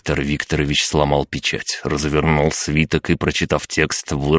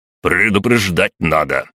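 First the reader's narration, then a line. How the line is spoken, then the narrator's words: Exclamation. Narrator (Russian): воскликнул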